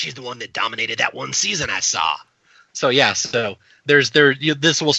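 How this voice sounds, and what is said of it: Usual voice. Nothing is said of it.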